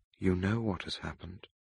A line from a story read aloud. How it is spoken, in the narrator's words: I said quietly